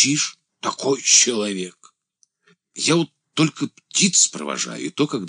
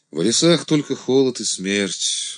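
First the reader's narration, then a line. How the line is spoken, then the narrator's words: Sighing. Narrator (Russian): вздохнул Андрей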